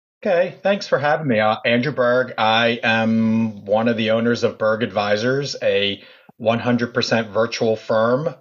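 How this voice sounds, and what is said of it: Philadelphia accent. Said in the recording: “he's out of Philadelphia. ... If you can't tell from his accent.”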